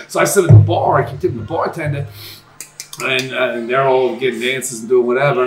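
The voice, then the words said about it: New York accent. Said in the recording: “where are you from with that accent? I go, oh, from New York. ... Queens”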